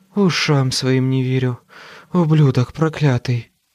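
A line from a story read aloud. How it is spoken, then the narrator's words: Hoarse rasp. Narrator (Russian): прохрипела Мёрфи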